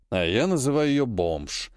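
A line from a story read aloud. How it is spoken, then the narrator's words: Grumbling. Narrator (Russian): проворчал Сергей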